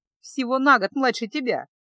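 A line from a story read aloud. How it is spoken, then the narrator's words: Laughing girl. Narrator (Russian): засмеялась дочка герцога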